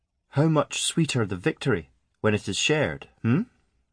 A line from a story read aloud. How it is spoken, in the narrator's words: she said quietly